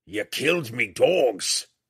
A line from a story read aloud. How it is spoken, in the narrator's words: the huge mountain man roared